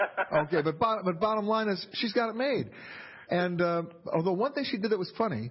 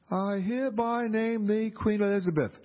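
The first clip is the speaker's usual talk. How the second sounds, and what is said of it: Imitates another person's voice. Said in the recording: “I'd like to do my impression now of her speech at the ship”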